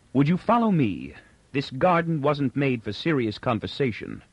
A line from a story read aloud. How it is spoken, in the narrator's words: Inber said coldly